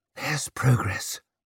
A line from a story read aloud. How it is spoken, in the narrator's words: whispered Savine